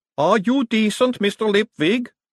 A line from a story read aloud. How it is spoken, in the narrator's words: a voice boomed